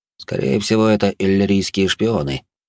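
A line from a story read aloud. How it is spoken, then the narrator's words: Fairly calm. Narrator (Russian): довольно спокойно добавил он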